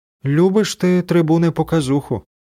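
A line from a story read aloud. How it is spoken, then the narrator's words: Sigh. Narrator (Ukrainian): зітхнула вона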